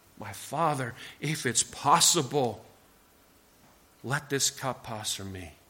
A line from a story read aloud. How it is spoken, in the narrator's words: his Son pouring out his soul and pleading